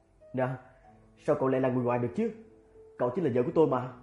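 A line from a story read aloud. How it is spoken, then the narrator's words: Hurried coaxing. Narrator (Vietnamese): Chu Tường vội dỗ dành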